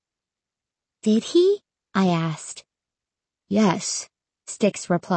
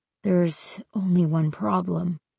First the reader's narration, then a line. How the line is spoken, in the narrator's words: he murmured